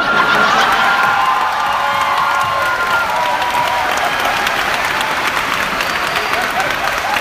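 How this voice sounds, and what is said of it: Usual voice. Nothing is said of it.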